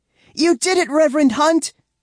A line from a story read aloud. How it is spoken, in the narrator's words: I shout at the top of my lungs